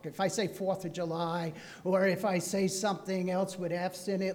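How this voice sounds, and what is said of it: New Jersey accent. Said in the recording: “I'm from New Jersey originally... you still have some of your accent... when I'm talking fast, I get what I call Jersey talk”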